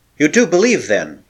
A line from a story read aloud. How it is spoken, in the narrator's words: he exclaimed